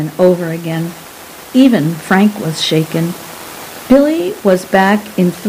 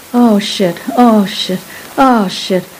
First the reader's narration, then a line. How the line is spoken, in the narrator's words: moaning